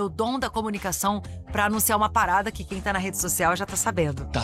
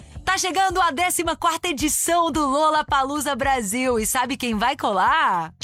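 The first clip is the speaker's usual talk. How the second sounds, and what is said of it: Exaggerated radio announcer voice. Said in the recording (Portuguese): “fazendo voz de locutora ... fazer voz de locutor comigo também”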